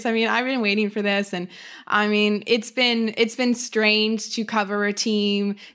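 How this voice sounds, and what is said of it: Excited, eager speaking voice. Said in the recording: “I'm so excited. You can probably hear it in my voice.”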